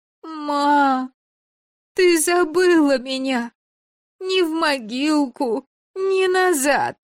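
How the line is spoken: Whimpering, straining wail. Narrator (Russian): И скулит, и воет надсадно

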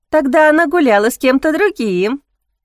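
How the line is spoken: Spiteful maid laughing louder. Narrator (Russian): еще громче рассмеялась вредная служанка

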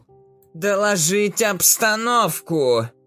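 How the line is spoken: Very loud in enclosed cabin. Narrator (Russian): В замкнутой кабине ее голос прозвучал очень громко

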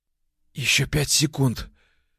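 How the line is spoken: Husky, desire-filled whisper. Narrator (Russian): Шепчу хриплым от желания голосом

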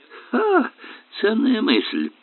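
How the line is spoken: Snorting. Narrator (Russian): фыркнул Эллери

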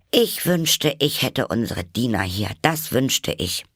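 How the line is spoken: Loud, to no one. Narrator (German): sagte Alice laut, ohne jemand insbesondere anzureden

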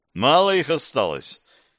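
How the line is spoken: Sigh. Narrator (Russian): Кирилл вздохнул

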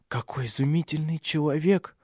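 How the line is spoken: Whisper, older woman. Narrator (Russian): прошептала старшая

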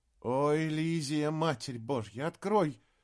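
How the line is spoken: Helpless frightened mutter. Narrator (Russian): Беспомощно пробормотал он, и от страха

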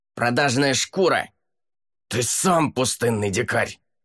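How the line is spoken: Angry, struggling. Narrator (Russian): Зло отвечал ему лорд Шамсур, брыкаясь и пытаясь вырваться из рук стражников

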